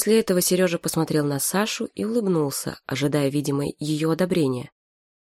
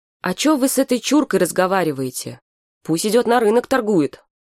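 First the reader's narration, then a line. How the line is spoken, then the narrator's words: Shouting. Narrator (Russian): Сережа крикнул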